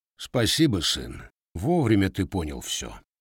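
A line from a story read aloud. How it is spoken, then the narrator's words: Quiet. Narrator (Russian): Григорий негромко произнес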